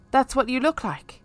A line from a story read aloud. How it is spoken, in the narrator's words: I blurted out